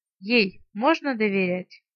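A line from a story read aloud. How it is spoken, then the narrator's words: Sighing question. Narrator (Russian): вздохнул и спросил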